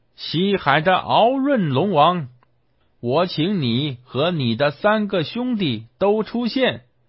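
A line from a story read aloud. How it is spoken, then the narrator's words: Shouting. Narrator (Chinese): 喊道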